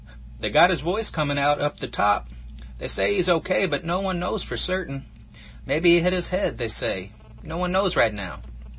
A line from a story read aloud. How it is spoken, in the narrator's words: Gray-faced Alex Hobbs turned around and yelled